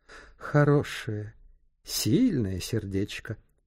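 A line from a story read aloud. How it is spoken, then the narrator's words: Mutter. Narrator (Russian): пробормотала она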